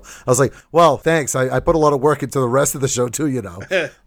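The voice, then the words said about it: Noticeable regional accent. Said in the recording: “my accent is a subject of topic ... your accent's like my favorite part of the show”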